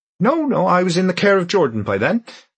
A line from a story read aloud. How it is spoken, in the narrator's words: Lyra said cheerfully